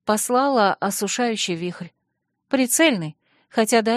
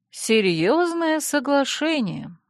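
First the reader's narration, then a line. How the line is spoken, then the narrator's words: Respectful drawl. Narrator (Russian): уважительно протянула Альми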